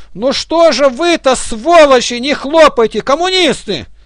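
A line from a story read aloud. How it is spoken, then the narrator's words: Shouted. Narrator (Russian): Власов крикнул передним скамьям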